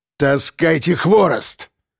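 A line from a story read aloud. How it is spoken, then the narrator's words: Barked. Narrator (Russian): рявкнул Кирпич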